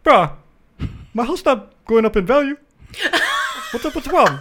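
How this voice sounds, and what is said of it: Imitates another person's voice. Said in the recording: “Perfect impersonation.”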